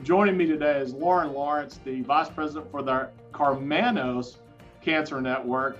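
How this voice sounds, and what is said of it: Texas accent. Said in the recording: “my Texas accent doesn't quite work with Carmanos”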